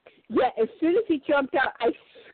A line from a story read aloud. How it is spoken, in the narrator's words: I yelled